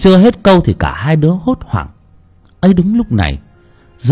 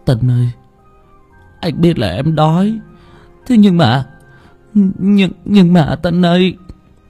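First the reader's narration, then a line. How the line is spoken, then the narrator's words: Shivering boy, stammering. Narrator (Vietnamese): Bất giác rùng mình, thằng Thổ lắp bắp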